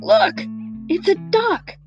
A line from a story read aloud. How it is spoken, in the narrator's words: exclaimed one surprised passenger